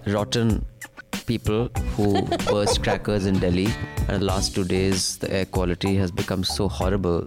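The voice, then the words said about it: Husky, hoarse voice. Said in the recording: “my voice is sounding so sexy and this husky kind ... of tone ... my throat is screwed”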